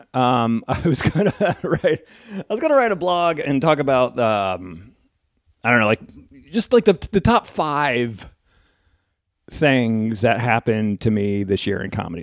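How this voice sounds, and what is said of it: Congested, sick-sounding voice. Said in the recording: “I'm looking for tissues because I have a cold.”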